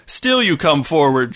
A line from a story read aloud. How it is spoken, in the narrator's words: shouted the knight, laughing